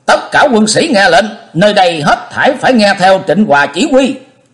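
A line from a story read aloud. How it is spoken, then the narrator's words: Loud commanding call. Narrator (Vietnamese): Diệp Linh Tô cao giọng kêu to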